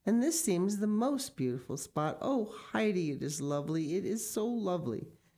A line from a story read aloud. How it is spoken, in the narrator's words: she cried, with delight